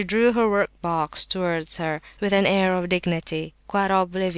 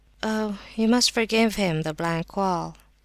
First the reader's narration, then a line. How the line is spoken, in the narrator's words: said quietly